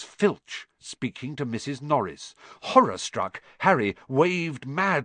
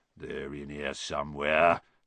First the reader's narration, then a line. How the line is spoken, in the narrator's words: they heard him mutter